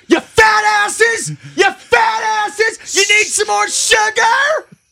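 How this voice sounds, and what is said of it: Yelling. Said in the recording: “I'm yelling”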